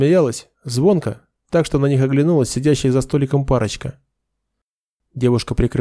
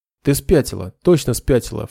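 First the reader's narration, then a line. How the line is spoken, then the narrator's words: Snorting. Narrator (Russian): фыркнул Нед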